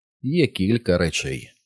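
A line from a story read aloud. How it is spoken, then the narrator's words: Plain. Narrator (Ukrainian): сказала вона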